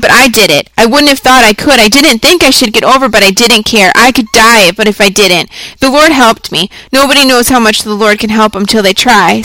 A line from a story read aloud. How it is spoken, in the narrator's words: said wildly